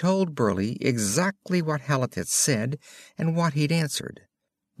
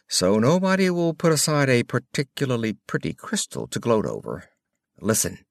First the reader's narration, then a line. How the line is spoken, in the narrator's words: said Moran dryly